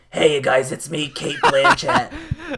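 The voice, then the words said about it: Gruff truck-driver voice. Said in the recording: “I just make everyone sound like a gruff truck driver, and I'm like, here's my impression of”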